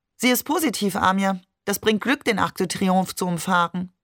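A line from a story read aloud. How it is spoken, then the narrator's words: Cold. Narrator (German): Maman sagte kalt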